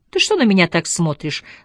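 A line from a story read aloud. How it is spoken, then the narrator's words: Laughing. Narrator (Russian): засмеялась она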